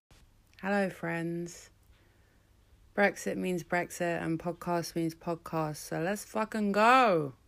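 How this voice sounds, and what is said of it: Slightly nasal, hoarse voice. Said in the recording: “I'm kind of in recovery from a cold, so if I sound a bit nasal or a bit hoarse”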